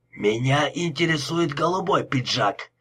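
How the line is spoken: Growl. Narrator (Russian): прорычал Лепски

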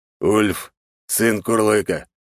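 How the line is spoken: Calm, not growling. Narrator (Russian): не стал рычать на меня, а только произнес

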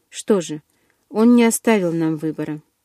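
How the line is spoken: Grim. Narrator (Russian): мрачно

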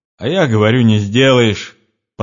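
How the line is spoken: Spoken, then loud laughter. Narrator (Russian): проговорила она и громко засмеялась

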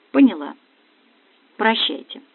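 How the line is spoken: Quiet, hopeless. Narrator (Russian): Ощущая полную безнадежность, я тихо сказала

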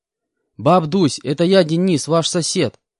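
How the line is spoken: Loud, for elderly listener. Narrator (Russian): Громко сказал я, чтобы пожилая пенсионерка меня расслышала

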